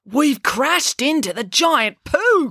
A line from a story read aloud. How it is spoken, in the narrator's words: cried Finn